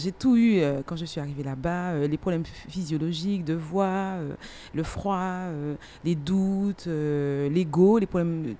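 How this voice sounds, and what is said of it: Martinican French accent. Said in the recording (French): “Ça s'entend bien parce que je suis de la Martinique avec mon accent.”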